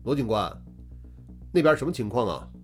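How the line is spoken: Loud question. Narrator (Chinese): 韩浩大声问道

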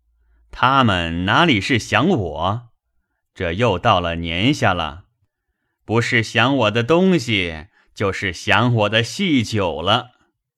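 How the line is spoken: Laughing. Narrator (Chinese): 贾珍笑道

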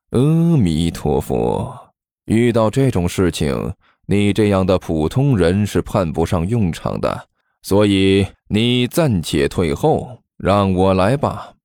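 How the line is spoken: Long sigh. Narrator (Chinese): 齐剑长叹一声

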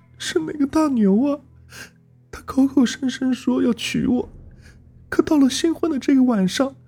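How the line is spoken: Sobbing. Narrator (Chinese): 他一边抽泣着，一边说

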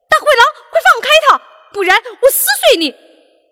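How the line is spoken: Fierce protective shout. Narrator (Chinese): 橘子老虎怕大灰狼把小羊吃掉，对着大灰狼喊道

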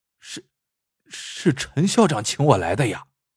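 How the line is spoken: Hesitant stammering. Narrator (Chinese): 老王迟疑着没接，结结巴巴的说

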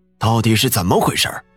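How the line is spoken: Stern question. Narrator (Chinese): 李村长朝老妇人厉声问道

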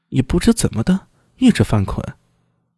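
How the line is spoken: Soft, troubled. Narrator (Chinese): 聂苏也一副苦恼的模样，轻声道

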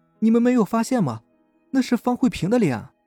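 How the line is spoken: Trembling scream. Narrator (Chinese): 那个女生颤声大叫

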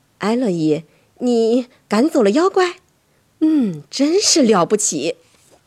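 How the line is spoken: Tired but smiling. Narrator (Chinese): 她神色疲倦，可她微笑着对我说

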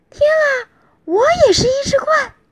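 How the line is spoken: Startled loud cry. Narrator (Chinese): 伊莎贝拉大叫起来

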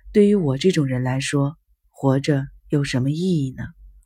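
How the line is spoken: Flat, detached. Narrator (Chinese): 淡淡的重复着

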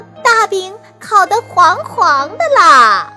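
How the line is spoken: Loud answer. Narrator (Chinese): 熊二大声回答

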